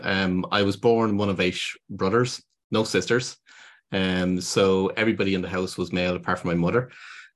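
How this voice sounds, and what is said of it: Irish Dublin accent. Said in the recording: “You probably got it by the accent. I'm from Dublin in Ireland.”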